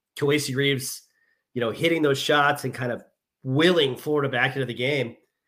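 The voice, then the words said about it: Congested voice with occasional sniffling. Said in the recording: “I'm sorry if anybody can hear me sniffling occasionally. ... I've got a little bit of a cold”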